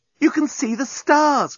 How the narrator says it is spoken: cried Nettie

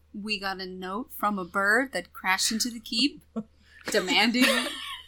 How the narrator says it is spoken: Saya, she quietly says to Arnadel

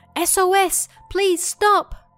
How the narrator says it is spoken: Everyone was half panicked and screaming

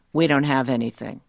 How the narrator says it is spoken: I say flatly

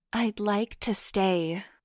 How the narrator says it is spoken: purred hotly

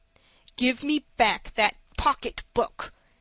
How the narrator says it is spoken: repeated in a threatening voice

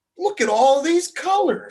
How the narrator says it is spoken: Samantha giggled

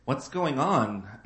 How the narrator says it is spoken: Anne sighed

